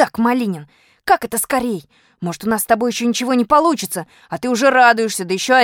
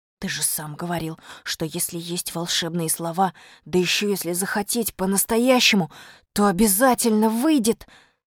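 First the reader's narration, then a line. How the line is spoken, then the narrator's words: Whispering. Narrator (Russian): сказал Костя шепотом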